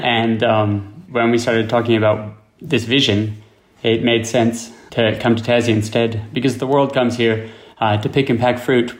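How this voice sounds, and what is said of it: American accent. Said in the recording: “I'm obviously from the US. And so you can hear it in our accents.”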